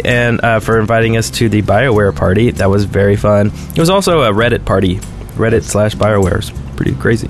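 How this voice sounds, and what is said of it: Hoarse, nearly lost voice. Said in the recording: “if I can still talk ... I think my voice is about gone”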